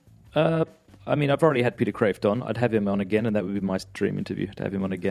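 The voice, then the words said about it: Australian accent. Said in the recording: “you're Catholic and Australian ... Is your accent fake?”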